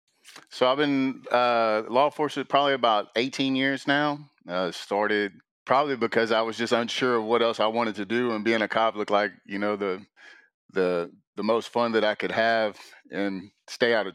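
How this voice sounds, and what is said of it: Texas Southern accent. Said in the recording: “you got a good Texas accent there ... is our Southern interpreter”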